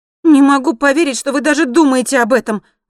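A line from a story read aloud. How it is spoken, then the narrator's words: Indignant exclamation. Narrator (Russian): воскликнула Эмма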